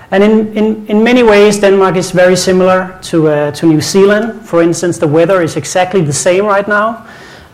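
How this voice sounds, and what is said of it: Danish accent in English. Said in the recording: “as you can hear from my accent, I'm not from Auckland. I'm not even from this part of the world. I'm from Denmark.”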